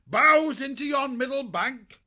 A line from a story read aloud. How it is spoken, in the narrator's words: Alfo ... called out